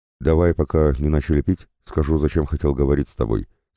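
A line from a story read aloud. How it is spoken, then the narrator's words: Plain. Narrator (Russian): сказал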